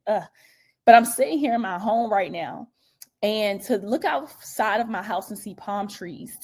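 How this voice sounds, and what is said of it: Emotional, choked-up voice. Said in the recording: “I'm getting emotional just thinking about it. ... I'm getting emotional.”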